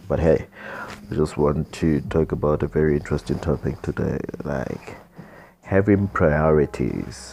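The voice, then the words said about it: Tired, exhausted-sounding voice. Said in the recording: “I'm very exhausted. As you can hear from my voice, I'm very exhausted.”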